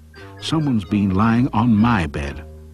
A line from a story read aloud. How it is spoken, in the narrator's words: The middle-sized mummy bear said crossly